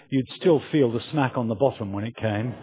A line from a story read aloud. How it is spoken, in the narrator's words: And Mark, our son, who was lying on the sofa, apparently paying no attention at all, simply muttered in a matter-of-fact voice